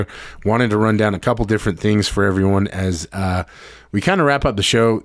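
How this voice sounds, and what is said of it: Strained, failing voice. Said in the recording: “my voice is starting to fail me”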